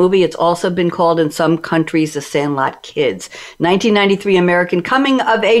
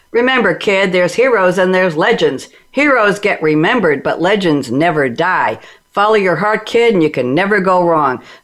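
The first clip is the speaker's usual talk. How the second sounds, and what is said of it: Imitates another person's voice. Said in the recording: “This is probably the worst imitation of Babe Ruth ever”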